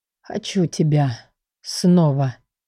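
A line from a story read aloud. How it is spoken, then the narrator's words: Hoarse voice behind. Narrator (Russian): за спиной раздалось хриплое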